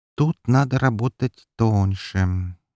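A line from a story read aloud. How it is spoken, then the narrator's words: Slow. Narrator (Russian): медленно произнес он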